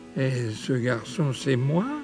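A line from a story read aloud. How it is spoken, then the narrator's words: Moaning. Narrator (French): gémit Paul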